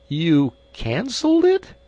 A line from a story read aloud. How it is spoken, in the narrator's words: he quavered